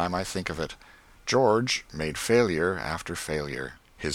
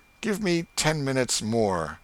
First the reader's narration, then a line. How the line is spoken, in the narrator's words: But he shouted